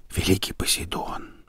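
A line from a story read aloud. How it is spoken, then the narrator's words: Whispered. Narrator (Russian): прошептал он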